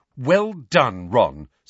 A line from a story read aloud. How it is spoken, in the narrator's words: snapped Hermione